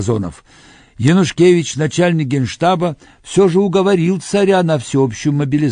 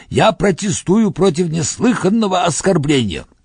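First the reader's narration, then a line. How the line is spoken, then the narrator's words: Strained hoarse shout. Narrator (Russian): Пурталис натужно и хрипло прокричал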